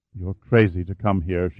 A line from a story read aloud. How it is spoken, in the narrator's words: murmured